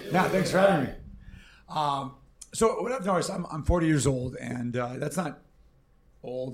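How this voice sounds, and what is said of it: Worn voice, not its usual sound. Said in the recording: “Forgive my voice. I just got back from Vegas, so it's not what it usually ... is.”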